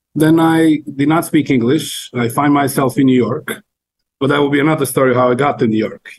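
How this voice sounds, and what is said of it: Spanish speaker's accent, not Mexican. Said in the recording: “This is not a Mexican accent. I know you speak Spanish, but this is not a Mexican accent.”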